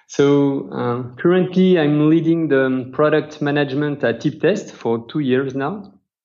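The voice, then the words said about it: French accent. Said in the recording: “My nice accent comes from France.”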